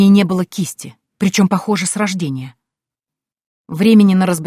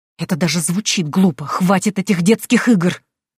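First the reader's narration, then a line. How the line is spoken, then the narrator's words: Hissing. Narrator (Russian): Прошипела я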